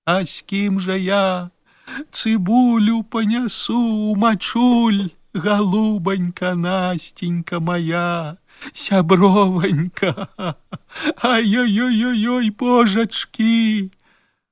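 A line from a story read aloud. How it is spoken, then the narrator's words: Broken sobbing lament. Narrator (Belarusian): Лісавета плакала з перапынкамі і ўсё паўтарала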